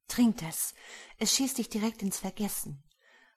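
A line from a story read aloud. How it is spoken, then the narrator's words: Husky breathy whisper. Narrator (German): hauchte Jasmines heisere Stimme in mein Ohr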